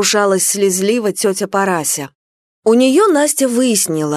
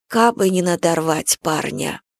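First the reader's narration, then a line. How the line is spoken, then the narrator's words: Quiet confession. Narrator (Russian): она тихо признавалась тете Параси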